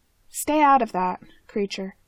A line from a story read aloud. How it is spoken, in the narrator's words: he says firmly